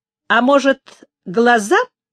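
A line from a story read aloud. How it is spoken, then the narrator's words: Snide question, thin man. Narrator (Russian): ехидно спросил тощий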